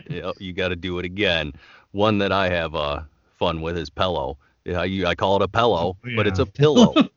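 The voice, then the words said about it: Michigan accent. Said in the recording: “here in Michigan, it's with the accent ... the way that we do our A's and our O's”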